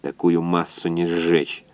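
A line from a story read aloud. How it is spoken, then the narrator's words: Grumbling. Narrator (Russian): буркнул инженер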